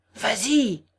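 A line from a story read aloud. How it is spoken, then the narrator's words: Shouting furiously. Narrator (French): vociféra-t-il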